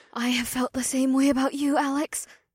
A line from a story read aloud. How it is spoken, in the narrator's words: May whispered, but her words turned into a whimper